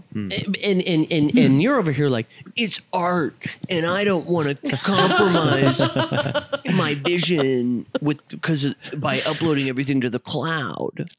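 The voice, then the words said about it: Imitates another person's voice. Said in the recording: “that's a pretty good impersonation of me... It was like hearing a recording of Justin”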